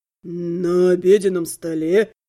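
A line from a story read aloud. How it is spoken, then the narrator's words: Friend scoffing. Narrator (Russian): хмыкнул лучший друг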